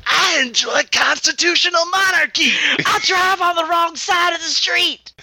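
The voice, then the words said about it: Put-on English accent, breathless and excited. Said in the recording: “new go-to English accent ... That's my English accent ... doesn't sound like Harry Carey anymore ... sounds like you're out of breath and excited”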